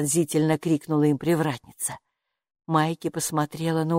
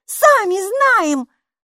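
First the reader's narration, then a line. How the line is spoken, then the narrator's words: Snapping back. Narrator (Russian): огрызнулась Майки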